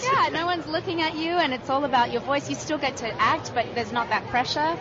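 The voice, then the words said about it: Unusual accent. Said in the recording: “I have a strange accent.”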